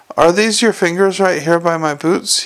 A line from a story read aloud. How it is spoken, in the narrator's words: he said